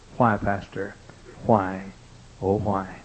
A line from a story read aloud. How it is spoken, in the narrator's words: gold star mother weep softly ask